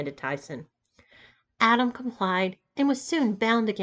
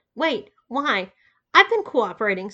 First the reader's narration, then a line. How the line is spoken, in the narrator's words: sputtered Adam